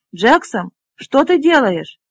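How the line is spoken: Shouted. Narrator (Russian): крикнул

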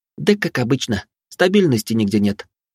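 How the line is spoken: Sighing. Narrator (Russian): вздохнула Вилли

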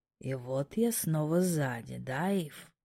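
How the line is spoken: Soft purring question. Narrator (Russian): Тихий мурлыкающий звук сопровождал этот вопрос

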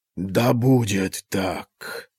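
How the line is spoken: Whispering. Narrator (Russian): снова шепнул он

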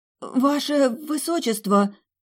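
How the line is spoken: Stunned breath. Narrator (Russian): ошеломленно выдохнула она

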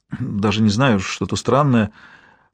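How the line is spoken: Muttered. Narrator (Russian): пробормотала журналистка

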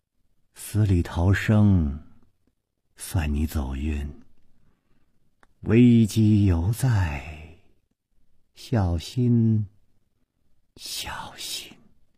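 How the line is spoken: Dazed murmur. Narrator (Chinese): 白衣美妇望着湖水呆呆地出了半天神，喃喃地说

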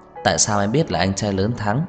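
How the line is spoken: Smiling question. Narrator (Vietnamese): Trang Hải Lâm mỉm cười nhìn Tưởng Tuyết Nhi hỏi

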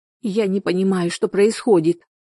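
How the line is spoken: Sobbing. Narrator (Russian): всхлипнула она

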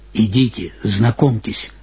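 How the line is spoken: Whisper. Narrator (Russian): шепнул мне Жан Невсель

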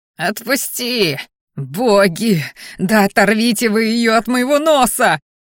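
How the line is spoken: Howling in pain. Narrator (Russian): Взвыл парень

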